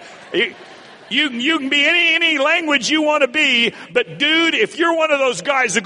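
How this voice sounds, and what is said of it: Usual voice. Nothing is said of it.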